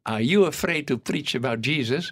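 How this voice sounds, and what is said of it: English with a Dutch accent. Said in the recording (Dutch): “Een beetje met mijn Hollandse accent.”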